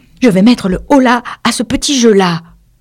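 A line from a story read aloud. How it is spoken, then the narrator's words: Exclaimed to herself. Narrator (French): se dit-elle tout en s'écriant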